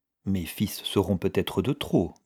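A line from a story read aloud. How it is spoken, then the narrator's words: Murmured. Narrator (French): murmura M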